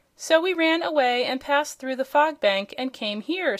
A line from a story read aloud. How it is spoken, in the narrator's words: said Button Bright